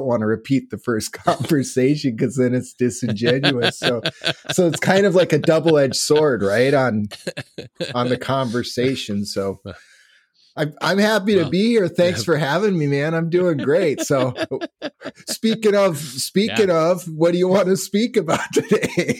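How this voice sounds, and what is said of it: Minnesota accent. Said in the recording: “I caught a little bit of the accent when we spoke last time... Now I definitely hear the Minnesota.”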